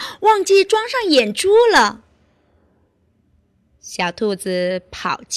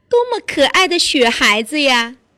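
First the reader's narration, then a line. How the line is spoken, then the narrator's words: Laughing. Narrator (Chinese): 兔妈妈笑着说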